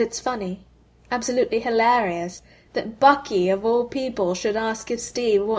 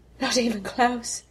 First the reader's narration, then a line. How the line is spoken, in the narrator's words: he gasps, and there's blood in his mouth